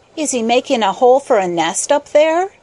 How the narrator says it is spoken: asked Peter eagerly

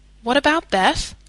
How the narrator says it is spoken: asked anxiously

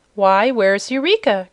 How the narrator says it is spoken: cried Dorothy suddenly

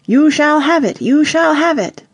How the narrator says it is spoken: shouted

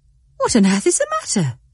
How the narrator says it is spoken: gasped

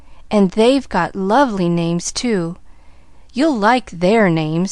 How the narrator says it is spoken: sighed Nancy

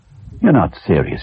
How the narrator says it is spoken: he said

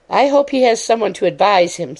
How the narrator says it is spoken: said Miss Lake, anxiously

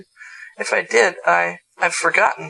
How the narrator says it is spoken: stammered regretfully

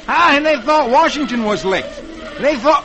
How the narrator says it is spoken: Dick yells

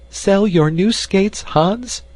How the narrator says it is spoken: cried Annie

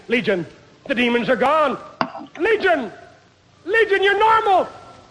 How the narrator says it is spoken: she cried

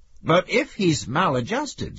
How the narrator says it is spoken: said the friend, looking at Max nervously

